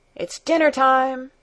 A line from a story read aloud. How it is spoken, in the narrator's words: All of a sudden he called at the top of his voice